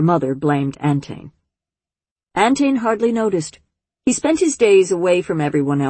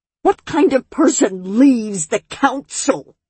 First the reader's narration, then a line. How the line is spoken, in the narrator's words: She howled